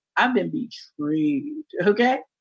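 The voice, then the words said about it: Deliberately deep voice. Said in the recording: “deep voice ... I got range”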